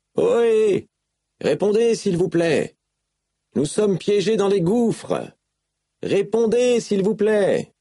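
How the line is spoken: Shouting. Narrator (French): tout en criant

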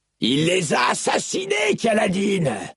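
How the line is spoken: Barking angrily. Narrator (French): aboya Moash

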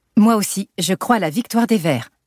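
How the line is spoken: Plain. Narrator (French): dit Alice

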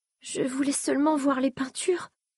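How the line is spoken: Shaky voice near sobbing. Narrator (French): dit-elle encore avec un frisson annonciateur de sanglots

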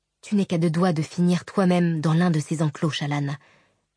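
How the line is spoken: Shivering, to herself. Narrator (French): se dit-elle en frissonnant

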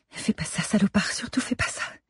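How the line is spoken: Murmuring to herself. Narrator (French): se murmurait-elle

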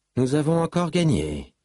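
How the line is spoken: Triumphant exclamation. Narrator (French): s'exclama sa déesse, triomphant

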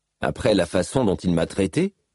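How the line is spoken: Curt retort. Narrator (French): rétorqua Kaladin d'un ton brusque

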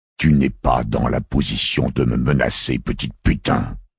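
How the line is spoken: Hissed. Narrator (French): siffla Quinn

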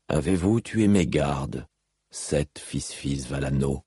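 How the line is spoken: King asking calmly. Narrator (French): demanda calmement le roi

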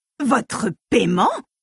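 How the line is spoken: Exclaimed. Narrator (French): s'écria Frava

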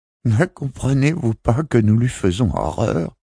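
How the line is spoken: Woman moaning near tears. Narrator (French): gémit une femme au bord des larmes

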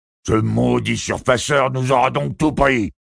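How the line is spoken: Growling. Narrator (French): gronda Don le fil

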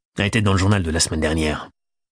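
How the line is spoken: Grumbled. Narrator (French): grommela Macaire

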